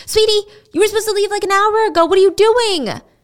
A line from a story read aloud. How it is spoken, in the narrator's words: Teresa would scream back